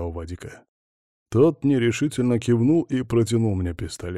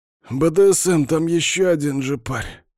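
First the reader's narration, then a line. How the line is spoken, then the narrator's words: Hoarse wheeze. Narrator (Russian): просипел Капа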